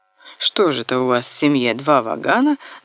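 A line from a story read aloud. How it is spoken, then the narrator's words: Laughing. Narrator (Russian): засмеялась Ася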